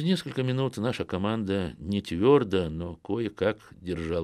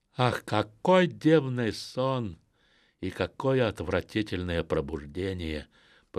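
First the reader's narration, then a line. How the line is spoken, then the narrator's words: Groaning. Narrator (Russian): простонал Педро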